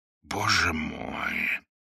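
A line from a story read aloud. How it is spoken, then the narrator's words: Amazed whisper. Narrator (Russian): прошептал канонир, хотя это восклицание лишь в малой степени отражало то изумление, которое он сейчас испытывал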